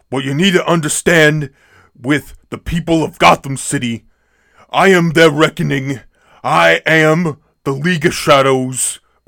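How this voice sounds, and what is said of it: Imitates another person's voice. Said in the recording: “do a Bernie Sanders impression, but but doing Bane dialogue”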